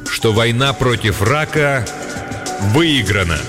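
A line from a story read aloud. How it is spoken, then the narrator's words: Loud and slow. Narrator (Russian): громко и медленно произносит он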